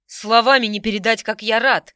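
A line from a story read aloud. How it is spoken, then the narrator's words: Exhaled breathily. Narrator (Russian): выдохнул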